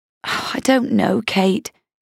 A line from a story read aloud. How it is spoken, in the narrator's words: she said with a sigh